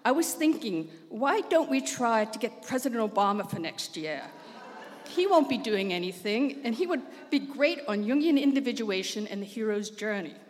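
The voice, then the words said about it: Put-on South African accent. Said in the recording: “As though I know anybody else with a South African accent.”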